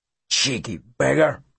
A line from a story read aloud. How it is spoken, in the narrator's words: Brogan mutter